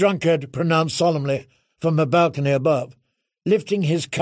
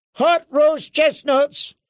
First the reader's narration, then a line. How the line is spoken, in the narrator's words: a peddler cried